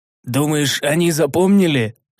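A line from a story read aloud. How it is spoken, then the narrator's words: Skeptical snort. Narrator (Russian): хмыкнул я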